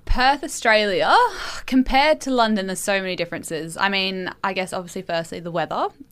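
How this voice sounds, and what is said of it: Australian accent. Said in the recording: “you have got an accent, of course, Australian.”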